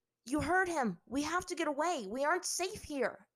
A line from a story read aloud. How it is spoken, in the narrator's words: Aang yelled to his friends